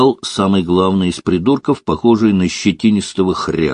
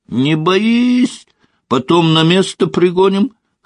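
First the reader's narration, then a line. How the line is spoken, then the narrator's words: Cackling laughter. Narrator (Russian): хохотал другой с мордой гиены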